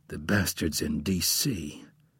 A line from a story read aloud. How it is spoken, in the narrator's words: he mumbled more to himself than Bourne